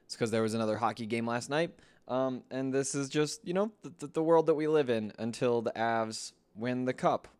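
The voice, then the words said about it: Hoarse, worn-out voice. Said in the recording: “You probably noticed that my voice is gone again.”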